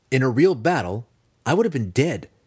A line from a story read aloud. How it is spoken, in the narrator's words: Drizzt replied